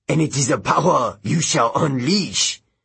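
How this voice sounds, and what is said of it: Heavy French accent character voice. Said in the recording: “said a man's voice in a heavy French accent.”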